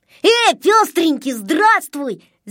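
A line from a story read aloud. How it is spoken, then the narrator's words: Shout. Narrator (Russian): закричал Незнайка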